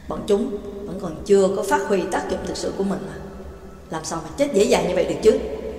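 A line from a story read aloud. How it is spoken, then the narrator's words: Scornful sneer. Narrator (Vietnamese): Tên lính đánh thuê đó cười khẩy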